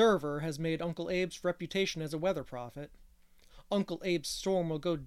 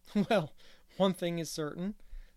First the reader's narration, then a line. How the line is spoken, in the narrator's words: said Gilbert, laughing